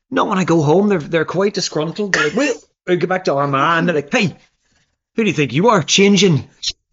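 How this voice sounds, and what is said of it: Irish accent. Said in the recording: “still got that beautiful accent.”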